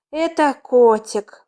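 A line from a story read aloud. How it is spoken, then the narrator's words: Breathless exhale. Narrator (Russian): выдохнула гречишница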